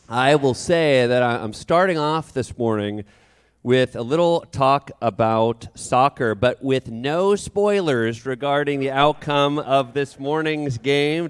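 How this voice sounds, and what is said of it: Rough, sick-sounding voice. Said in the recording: “Sorry about my voice. I got a bit of a cold”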